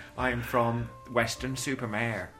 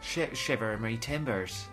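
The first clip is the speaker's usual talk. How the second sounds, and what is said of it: Poor put-on West Country pirate accent. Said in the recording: “What accent was that you just did? ... From the West Country. ... That's shocking.”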